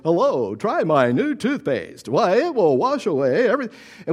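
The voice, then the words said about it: Exaggerated commercial announcer voice. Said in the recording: “they would be using their advertising voice ... this announcer voice that they would slip into”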